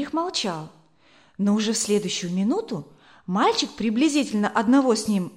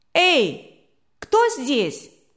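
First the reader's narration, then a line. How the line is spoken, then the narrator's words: Thin boyish shout. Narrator (Russian): тонкий мальчишеский голос крикнул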